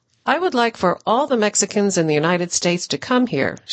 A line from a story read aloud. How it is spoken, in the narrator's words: said